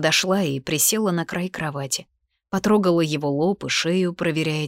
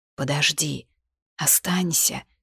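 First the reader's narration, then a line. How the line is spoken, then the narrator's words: Hoarse plea. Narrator (Russian): сипло попросил он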